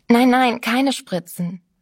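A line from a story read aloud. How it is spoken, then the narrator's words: Agitated protest. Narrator (German): wehrte sie merkwürdig aufgeregt ab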